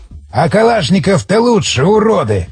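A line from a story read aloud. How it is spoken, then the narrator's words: Frustrated growl. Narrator (Russian): прорычал он, видя слабый эффект от его выстрела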